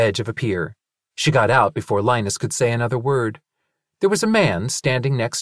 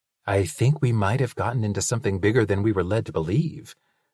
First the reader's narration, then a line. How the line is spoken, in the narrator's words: Linus whispered to Calliope